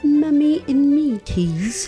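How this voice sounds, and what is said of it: Put-on British accent. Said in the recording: “I should say that in a British accent.”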